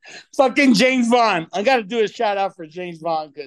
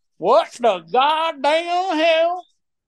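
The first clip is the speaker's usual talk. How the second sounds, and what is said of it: Put-on Southern drawl. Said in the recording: “I gotta get my southern drawl accent right here.”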